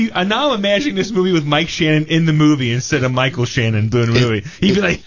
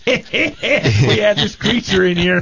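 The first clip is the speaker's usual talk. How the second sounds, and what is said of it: Imitates another person's voice. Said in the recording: “your Mike Shannon impression ... That's not good. That's an understatement.”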